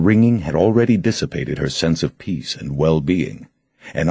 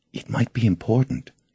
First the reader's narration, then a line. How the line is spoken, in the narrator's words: she whispered